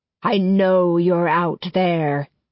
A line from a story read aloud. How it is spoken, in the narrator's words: Cetricus Raw bellows, his voice carrying through the hushed jungle